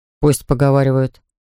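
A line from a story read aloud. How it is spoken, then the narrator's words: Plain. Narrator (Russian): сказал я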